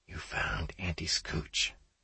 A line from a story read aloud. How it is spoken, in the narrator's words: Janny whispered into my ear